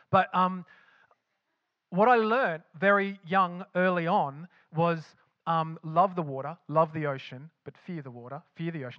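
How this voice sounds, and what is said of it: Australian-tinged accent. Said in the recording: “with my accent, betrays that I lived in Australia”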